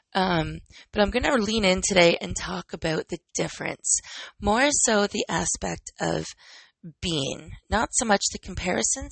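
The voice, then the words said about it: Husky, low-energy voice. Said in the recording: “my voice is still husky, my energy is still low”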